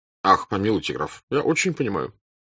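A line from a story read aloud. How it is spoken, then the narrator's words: Throaty, inward voice. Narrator (Russian): сказал Берг, говоря в себя горловым голосом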